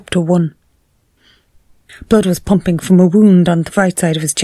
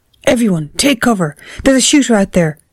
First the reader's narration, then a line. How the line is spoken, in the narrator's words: Seamus yelled